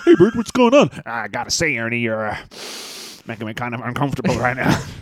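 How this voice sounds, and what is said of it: Bert and Ernie Muppet voices. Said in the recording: “great Bert and Ernie impression... It's both a terrible Bert and Ernie impression”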